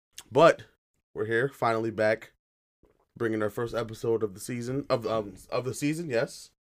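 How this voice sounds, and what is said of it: Slightly raspy voice. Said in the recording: “apologize for my voice. I'm a little raspy”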